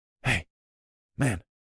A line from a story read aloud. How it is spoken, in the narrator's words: I said in a conspiratorial tone